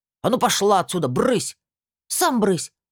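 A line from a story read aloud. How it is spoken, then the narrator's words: Snapping retort. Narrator (Russian): огрызнулась я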